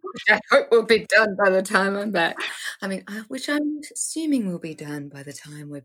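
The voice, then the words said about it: Daniel Tiger's mom character voice. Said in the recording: “very good Daniel Tiger mom voice. ... Mrs. Tiger”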